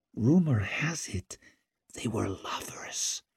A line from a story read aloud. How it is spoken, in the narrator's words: she purred